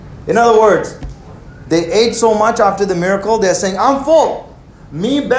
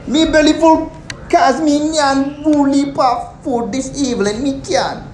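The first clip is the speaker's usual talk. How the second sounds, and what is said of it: Put-on Caribbean accent. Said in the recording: “I got none of my Caribbean members here today ... But you guys don't have this accent, right? Listen, I do my research and I do my accents”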